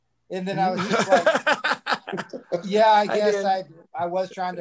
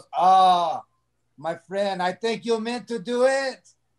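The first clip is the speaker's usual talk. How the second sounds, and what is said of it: Put-on French accent, cartoonish. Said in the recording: “That's a pretty good French accent, my friend. ... it's pretty good from Indiana. ... like a Pepe Le Pew type feel to it.”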